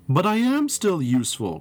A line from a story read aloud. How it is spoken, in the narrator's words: cried Thomas